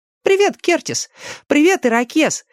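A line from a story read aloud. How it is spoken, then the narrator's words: Cheerful greeting. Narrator (Russian): Весело обратился к ним Дэнни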